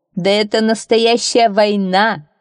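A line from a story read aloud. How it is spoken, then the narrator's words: Hearty laughter. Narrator (Russian): расхохотался судья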